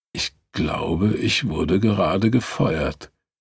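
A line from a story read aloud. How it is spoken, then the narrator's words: Weak voice. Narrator (German): sagte mit schwacher Stimme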